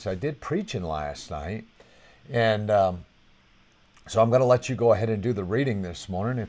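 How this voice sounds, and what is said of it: Strained, fading voice. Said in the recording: “I'm kind of losing my voice.”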